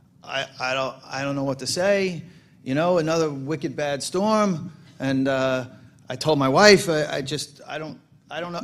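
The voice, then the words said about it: Put-on Boston accent. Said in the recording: “I'm going to do the Boston accent wrong”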